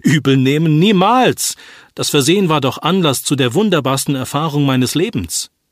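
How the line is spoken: Patient calling out. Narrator (German): Zu ihrer großen Überraschung rief der Patient

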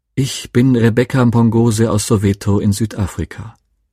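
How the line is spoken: Pleasant voice. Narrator (German): Mit angenehmer Stimme begann

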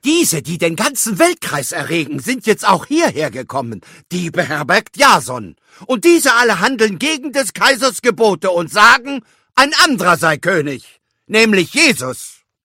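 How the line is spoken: Group shouting. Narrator (German): schrien

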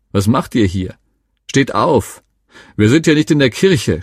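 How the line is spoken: Scolding, mocking, several voices. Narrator (German): schimpften und spotteten sie

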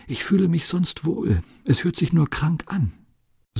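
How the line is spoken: Faint whisper. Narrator (German): Sie können gerade noch flüstern

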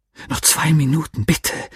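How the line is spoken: Annoyed whisper. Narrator (German): flüsterte ich ungehalten

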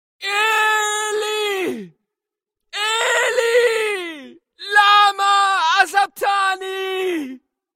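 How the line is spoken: Loud cry. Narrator (German): schrie Jesus laut

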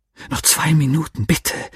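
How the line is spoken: Irritated whisper. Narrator (German): flüsterte ich ungehalten

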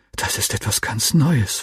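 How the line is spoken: Whisper. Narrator (German): flüsterte ich meinem Freund zu

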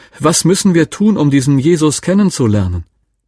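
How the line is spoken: Woman calling out loudly. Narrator (German): rief eine Frau plötzlich ganz laut

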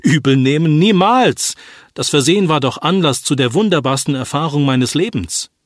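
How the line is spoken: Exclaiming. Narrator (German): rief der Patient

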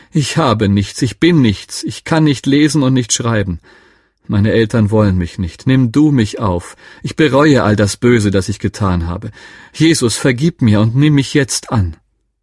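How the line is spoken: Calling out. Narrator (German): rief

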